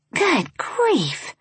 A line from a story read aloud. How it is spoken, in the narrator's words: Char whispered with a fierceness